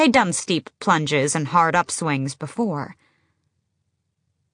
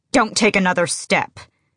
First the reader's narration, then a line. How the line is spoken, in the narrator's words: she snapped